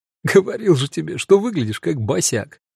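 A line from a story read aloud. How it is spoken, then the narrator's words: Laughing mutter. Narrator (Russian): Кто-то из них ... пробормотал сквозь смех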